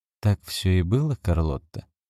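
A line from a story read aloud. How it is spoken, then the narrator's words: Soft question. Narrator (Russian): мягко спросил доктор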